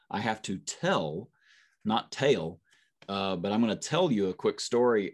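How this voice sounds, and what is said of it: Rural American hick accent. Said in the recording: “my hick accent”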